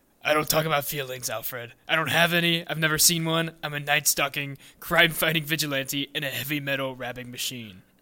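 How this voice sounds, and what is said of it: Gruff Lego Batman character voice. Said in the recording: “should I read it in the Lego Batman voice? ... That's my impression.”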